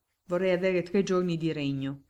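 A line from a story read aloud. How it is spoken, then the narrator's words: Grumbling. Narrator (Italian): brontolò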